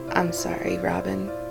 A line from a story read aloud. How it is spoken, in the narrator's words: his voice rumbled softly behind her